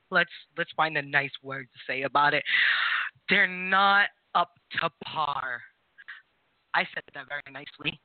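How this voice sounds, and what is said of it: New England/New York city accent. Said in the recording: “It's the accent. It's the city accent. ... It's New England, New York. We all don't pronounce our R's. New York's is just a little bit different.”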